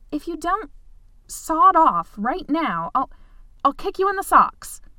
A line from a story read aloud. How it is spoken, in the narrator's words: Polly said fiercely